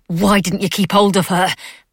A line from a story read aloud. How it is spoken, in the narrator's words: Mab snarled